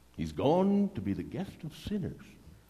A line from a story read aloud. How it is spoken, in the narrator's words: All the people began to mutter